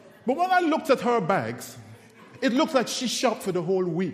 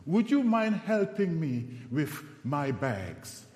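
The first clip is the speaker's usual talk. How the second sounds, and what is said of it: Seductive voice. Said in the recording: “in a seductive voice,”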